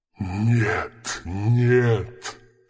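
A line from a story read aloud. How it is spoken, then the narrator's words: Moaning. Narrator (Russian): стонал Мергеш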